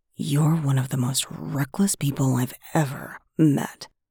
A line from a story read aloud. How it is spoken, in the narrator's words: he said in a hushed voice